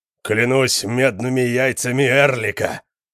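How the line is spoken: Booming. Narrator (Russian): прогремел Конан

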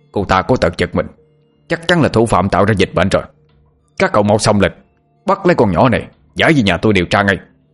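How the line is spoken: Shouting. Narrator (Vietnamese): Lão Ngạn mồm thì hét lên

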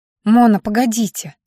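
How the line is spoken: Breathless exhale. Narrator (Russian): выдохнула я

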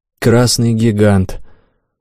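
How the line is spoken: Glum repetition. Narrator (Russian): уныло повторил умник

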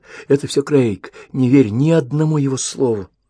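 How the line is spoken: Shuddering whisper. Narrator (Russian): Она содрогнулась в его объятиях и обшептала

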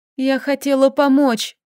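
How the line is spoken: Sobbing. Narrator (Russian): всхлипнула

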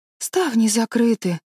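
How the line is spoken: Sad. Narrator (Russian): печально проговорила Энн

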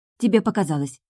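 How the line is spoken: Hurried reply. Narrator (Russian): торопливо ответила я

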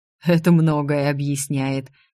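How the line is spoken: Giant's snort. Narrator (Russian): хмыкнул великан

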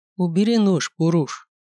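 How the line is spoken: Calm. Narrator (Russian): произнес он спокойно

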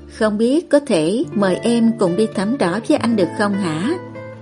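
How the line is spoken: Gentle, smiling. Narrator (Vietnamese): Anh mỉm cười với cô rồi dịu dàng lên tiếng

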